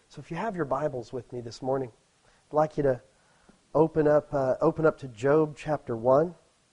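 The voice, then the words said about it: Slightly hoarse, strained voice. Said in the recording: “I'm getting over a cold and my voice is there, but not quite, so you have to excuse coughing”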